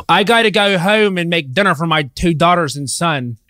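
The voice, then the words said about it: Put-on Delaware County Philadelphia accent. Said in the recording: “That Delco accent you did, that was so good. ... Delco, Pittsburgh. Delco.”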